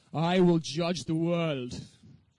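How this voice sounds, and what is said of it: Darth Vader impression voice. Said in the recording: “I tried it with my best Darth Vader accent.”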